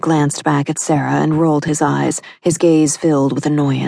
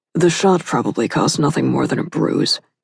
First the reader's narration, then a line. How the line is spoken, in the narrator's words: grumbled like a typical man